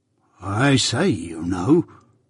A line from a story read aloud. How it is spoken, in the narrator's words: muttered Joe, in very serious remonstrance